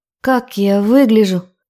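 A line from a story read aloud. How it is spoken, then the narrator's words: Hoarse question. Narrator (Russian): спросила хрипло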